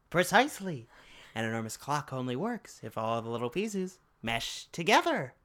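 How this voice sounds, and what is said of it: Imitates an actor's character voice. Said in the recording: “That wasn't bad. I kind of like that impression.”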